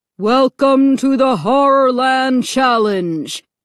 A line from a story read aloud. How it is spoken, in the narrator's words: boomed a deep, frightening voice over a loudspeaker